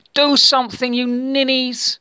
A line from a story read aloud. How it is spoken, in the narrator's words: roared